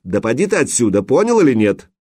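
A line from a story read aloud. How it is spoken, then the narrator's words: Sharp shout. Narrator (Russian): прикрикнул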